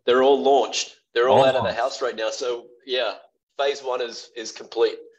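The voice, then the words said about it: Australian accent. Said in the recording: “He's from Australia. Has a wonderful accent.”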